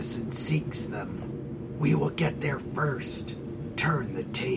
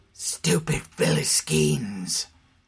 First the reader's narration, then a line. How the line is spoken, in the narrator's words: Wesley snarled